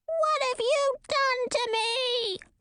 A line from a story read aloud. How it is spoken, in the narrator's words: squealed the kitten-sized beast